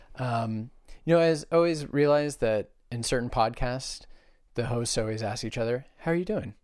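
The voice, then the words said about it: Hoarse, worn-out voice. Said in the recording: “my voice is shot a bit ... this horrendous thing coming out of my mouth ... Just sound like an older version of yourself”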